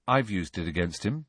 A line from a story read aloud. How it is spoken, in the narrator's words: said Harry quietly